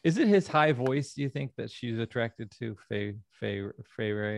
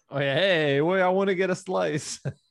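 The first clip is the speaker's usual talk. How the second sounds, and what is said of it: Put-on New York accent. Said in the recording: “put on like a New York, you know, accent”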